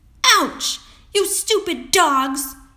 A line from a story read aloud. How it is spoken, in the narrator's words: cried out